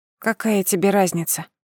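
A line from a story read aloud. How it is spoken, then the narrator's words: Serious tone. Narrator (Russian): Серьезным тоном произнесла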